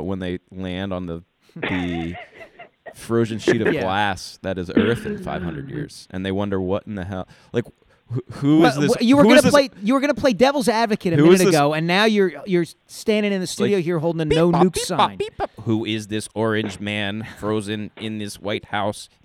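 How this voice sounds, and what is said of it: Imitates an alien's voice. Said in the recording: “that was my alien impression”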